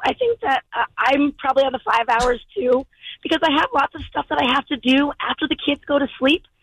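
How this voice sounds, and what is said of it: Strained, fading voice. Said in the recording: “I'm losing my voice. ... I've been screaming at kids probably all week long.”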